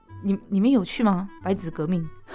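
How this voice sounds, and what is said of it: Quiet, hushed question. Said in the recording (Chinese): “还问那么小声”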